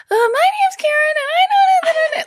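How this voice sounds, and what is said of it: Strangely high babyish pitch. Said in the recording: “do an impression of me ... I would start at such a strangely high babyish pitch”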